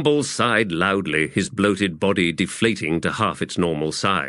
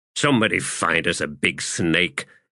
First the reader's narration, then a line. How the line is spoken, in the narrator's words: Methok growled